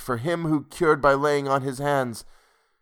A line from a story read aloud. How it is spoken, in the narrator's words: groaned